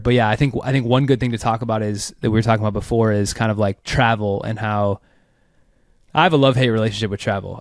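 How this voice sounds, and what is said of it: Sick, unwell-sounding voice. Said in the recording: “You can hear in my voice, I'm a little, I'm a man down on the health front”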